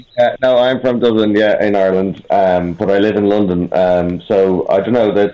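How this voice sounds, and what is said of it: Irish accent. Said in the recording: “When you hear the accent, you'll know that he comes from Ireland ... it's a nice accent ... It's a beautiful accent”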